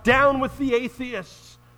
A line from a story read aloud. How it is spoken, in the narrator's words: the amazed crowds and spectators cried out